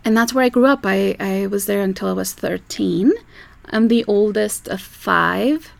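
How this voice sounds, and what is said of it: Uruguayan Spanish-accented English. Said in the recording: “You can probably all tell that I have an accent because I was born somewhere else. So I'm from South America, from a little country named Uruguay”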